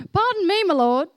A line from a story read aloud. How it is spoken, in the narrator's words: Gideon said